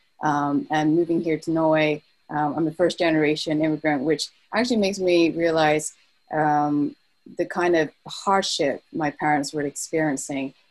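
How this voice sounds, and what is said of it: British accent. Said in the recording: “You probably could hear from my accent, British.”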